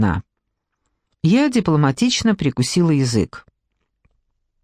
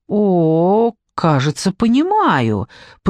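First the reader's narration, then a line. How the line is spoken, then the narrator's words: Drawn out. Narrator (Russian): протянула я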